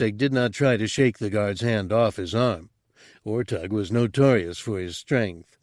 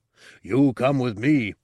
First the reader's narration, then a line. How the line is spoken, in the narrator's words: Ortug growled